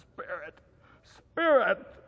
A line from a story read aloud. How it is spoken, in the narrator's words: he cried